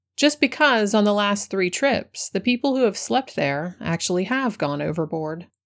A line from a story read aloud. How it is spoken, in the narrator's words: he answered gravely